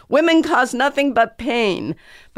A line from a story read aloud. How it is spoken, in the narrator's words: screaming